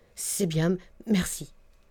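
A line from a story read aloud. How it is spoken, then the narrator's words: Stammered. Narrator (French): balbutia Nantas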